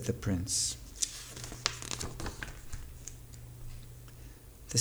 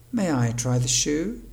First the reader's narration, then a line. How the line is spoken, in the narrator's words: asked Cinderella